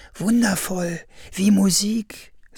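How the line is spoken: Happy sigh. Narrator (German): seufzte glücklich

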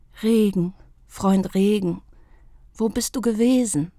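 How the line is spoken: Soft sigh. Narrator (German): seufzte sie leise

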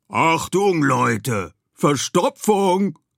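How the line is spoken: Roaring lion. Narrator (German): brüllte Luca, der Löwe

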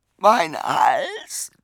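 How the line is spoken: Sobbing. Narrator (German): schluchzte er

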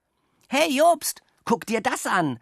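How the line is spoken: Excited call. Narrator (German): rief er aufgeregt

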